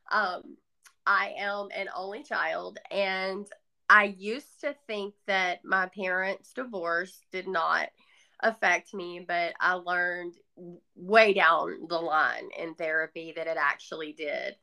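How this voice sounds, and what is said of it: Southern American accent. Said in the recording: “I grew up in the South, obviously by this accent.”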